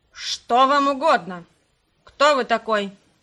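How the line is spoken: Rude question. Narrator (Russian): спросила грубо Харт

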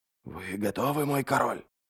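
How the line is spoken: Whispered in ear. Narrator (Russian): прошептал Адем Ярви в ухо

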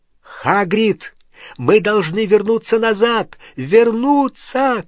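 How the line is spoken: Shouting over engine roar. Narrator (Russian): крикнул он сквозь громовый рев двигателя

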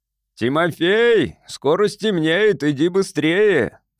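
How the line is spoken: Shouted. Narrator (Russian): крикнул отец

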